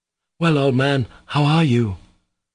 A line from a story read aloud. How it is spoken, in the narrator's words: But his voice failed him